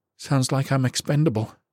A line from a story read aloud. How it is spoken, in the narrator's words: she said dryly